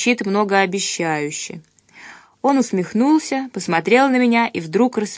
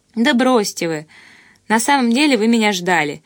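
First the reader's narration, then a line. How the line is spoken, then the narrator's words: Giggled. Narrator (Russian): хихикнула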